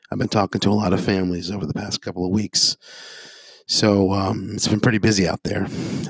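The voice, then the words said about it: Hoarse voice. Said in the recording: “my voice is a little bit hoarse.”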